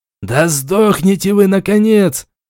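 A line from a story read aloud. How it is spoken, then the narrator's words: Furious shriek, sorcerer. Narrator (Russian): завизжал и без того взбешенный чародей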